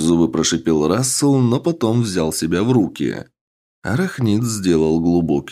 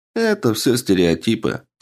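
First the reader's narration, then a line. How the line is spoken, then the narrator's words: Calm reply. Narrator (Russian): спокойно ответил ему Альнартар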